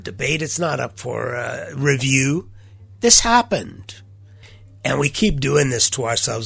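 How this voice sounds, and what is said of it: Congested voice from a cold. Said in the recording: “you can tell from my voice, I have not been able to shake this cold”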